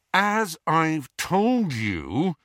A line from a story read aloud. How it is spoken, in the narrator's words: he said through gritted teeth